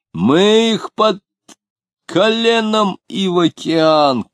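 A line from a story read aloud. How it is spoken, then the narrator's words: Shout. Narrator (Russian): кричал он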